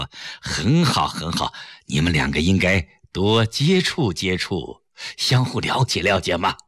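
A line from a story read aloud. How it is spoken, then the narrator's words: Smiling. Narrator (Chinese): 崔子昂微笑着说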